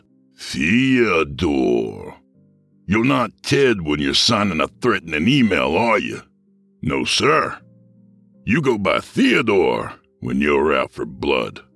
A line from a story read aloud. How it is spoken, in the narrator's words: drawled